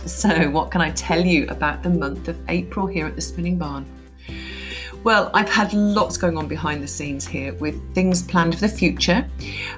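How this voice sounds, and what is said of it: Croaky voice with a cold. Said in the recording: “my voice is a little bit on the croaky side. I have got a cold... the funny voice”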